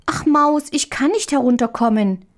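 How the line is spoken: Child calling. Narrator (German): rief die kleine Marie

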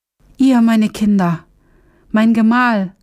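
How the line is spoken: Crying out, bursting into tears. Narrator (German): rief sie und brach in Tränen aus

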